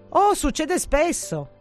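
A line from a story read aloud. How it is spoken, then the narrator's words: Eldest exclaims. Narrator (Italian): esclama il più grande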